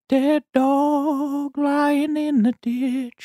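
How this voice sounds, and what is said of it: Sung imitation of a singer's voice. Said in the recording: “You can do a great Neil Young impression. Can you sing that? ... I can't do his vibrato.”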